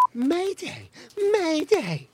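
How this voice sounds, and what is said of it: Imitates a famous person's voice. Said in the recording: “in her best impression of one of the galaxy's most famous people”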